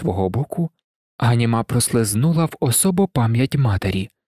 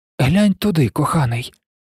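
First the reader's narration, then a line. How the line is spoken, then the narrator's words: Said, suddenly hoarse voice. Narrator (Ukrainian): сказала Ганіма раптом охриплим голосом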